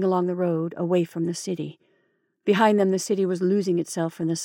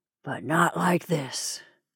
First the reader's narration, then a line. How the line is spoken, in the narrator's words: Eric murmured